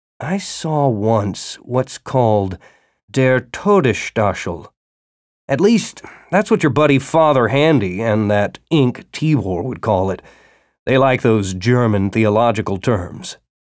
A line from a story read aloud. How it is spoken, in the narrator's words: Pete said slowly